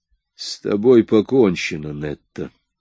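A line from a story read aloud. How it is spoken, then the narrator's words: Through gritted teeth. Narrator (Russian): Сквозь зубы сказал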